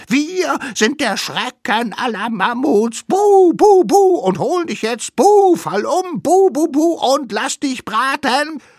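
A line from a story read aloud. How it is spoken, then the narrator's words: Screaming at full volume. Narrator (German): schrien so laut sie konnten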